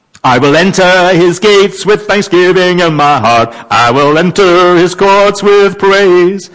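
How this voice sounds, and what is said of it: Put-on American accent. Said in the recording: “You have to do that with an American accent.”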